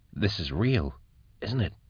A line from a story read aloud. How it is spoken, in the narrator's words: she whispered